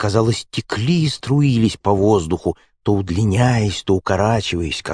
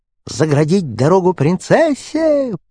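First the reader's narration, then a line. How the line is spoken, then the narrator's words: Squeaky, spiteful servants. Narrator (Russian): пропищали по очереди лакеи, злобно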